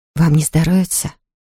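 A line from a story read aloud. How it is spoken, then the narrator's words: Whispered question. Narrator (Russian): Шепотом, чтобы не услышала Луиза, спросила она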